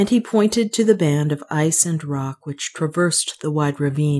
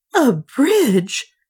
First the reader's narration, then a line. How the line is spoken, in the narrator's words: gasped Juana